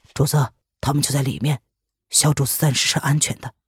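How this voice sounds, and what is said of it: Quiet, hushed voice. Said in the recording (Chinese): “小声的”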